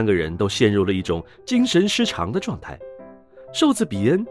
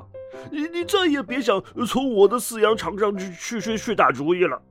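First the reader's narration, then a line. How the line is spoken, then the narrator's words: Shouting. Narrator (Chinese): 伯吉斯嚷道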